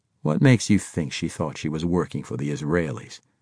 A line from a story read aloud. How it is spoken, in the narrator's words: He asked dryly